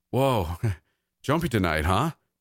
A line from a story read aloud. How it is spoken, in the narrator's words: chuckled